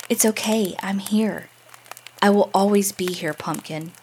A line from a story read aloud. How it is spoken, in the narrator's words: I whisper in his ear